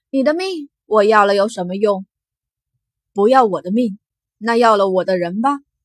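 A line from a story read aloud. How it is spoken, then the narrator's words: Quiet laugh. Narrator (Chinese): 金寒暗笑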